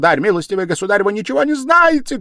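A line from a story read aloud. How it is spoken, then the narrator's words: Shouting. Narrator (Russian): кричала Катерина Ивановна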